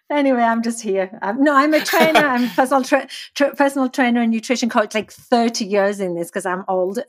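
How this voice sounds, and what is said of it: Thick English accent. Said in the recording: “I'm English. And apparently my accent's way thicker than Spencer was ... expecting.”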